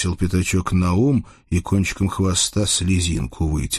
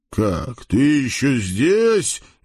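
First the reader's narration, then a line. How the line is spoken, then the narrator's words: Very loud shout. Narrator (Russian): закричал хряк, да так громко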